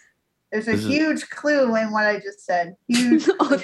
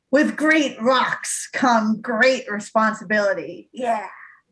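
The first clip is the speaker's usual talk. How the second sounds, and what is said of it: Imitates another person's voice. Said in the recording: “my poor impression of a very famous guy”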